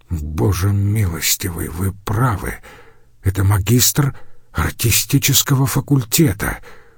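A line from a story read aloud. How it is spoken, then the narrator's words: Muttering. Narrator (Russian): пробормотал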